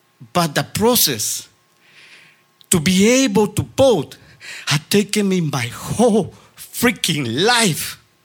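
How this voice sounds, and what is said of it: Speaks with a noticeable accent. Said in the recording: “That sexy accent, you know.”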